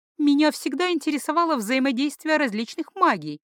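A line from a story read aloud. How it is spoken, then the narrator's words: Almost dreamy. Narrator (Russian): почти мечтательно вставила Алиса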